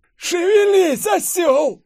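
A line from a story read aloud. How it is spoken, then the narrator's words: Yell. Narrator (Russian): Завопила я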